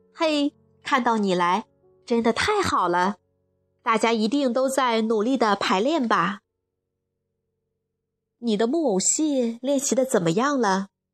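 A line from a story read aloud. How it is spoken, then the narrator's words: Plain question. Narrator (Chinese): 艾拉问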